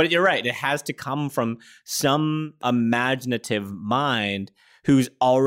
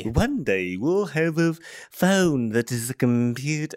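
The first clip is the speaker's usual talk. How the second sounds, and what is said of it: Wildly inconsistent put-on accent. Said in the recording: “that accent went all over the place ... 17 accents in four words”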